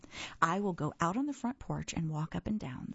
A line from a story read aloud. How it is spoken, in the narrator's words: said Toad